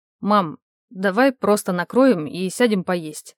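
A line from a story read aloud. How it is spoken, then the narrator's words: Strange voice. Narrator (Russian): проговорил каким-то странным голосом Лёня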